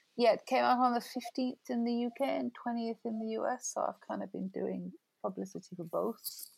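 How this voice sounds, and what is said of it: Croaky, hoarse voice. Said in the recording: “I sound croaky and freaked out... You do sound a little croaky, but good croaky... I think you sound sexy”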